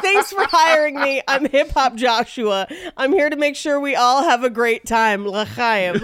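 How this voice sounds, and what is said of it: Cheesy party DJ voice. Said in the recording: “Why does he sound like a DJ for bar mitzvahs only?”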